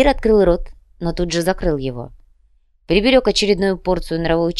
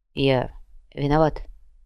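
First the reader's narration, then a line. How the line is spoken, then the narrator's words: Barely audible. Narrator (Russian): Наконец едва слышно произнес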